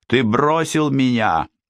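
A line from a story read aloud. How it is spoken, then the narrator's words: Tuneless girls screaming in chorus. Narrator (Russian): хором завопили безголосые девицы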